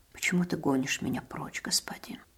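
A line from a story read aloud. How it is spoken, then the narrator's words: Quiet, humble speech. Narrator (Russian): Стараясь говорить тихо и смиренно, сказал он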